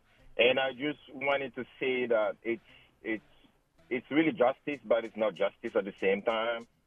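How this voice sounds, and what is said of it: African-accented English. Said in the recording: “my accent. I'm from Africa.”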